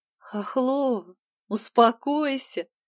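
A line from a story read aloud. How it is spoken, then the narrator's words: Laughing, curt. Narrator (Russian): Смеясь, бросила девушка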